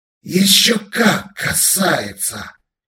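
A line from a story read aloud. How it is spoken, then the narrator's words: Alien hissing. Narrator (Russian): прошипел лагрианин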